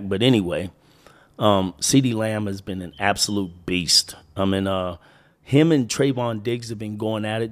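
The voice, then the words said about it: Winded, sick-sounding voice. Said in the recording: “a little winded or my voice is a little bit different. I am getting over a chest cold.”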